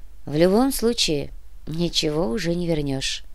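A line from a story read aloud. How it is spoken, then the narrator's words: Sad remark. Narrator (Russian): грустно заметила Яна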